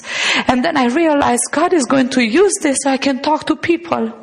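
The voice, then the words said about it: Romanian-accented English. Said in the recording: “I have an accent... You have such a beautiful accent.”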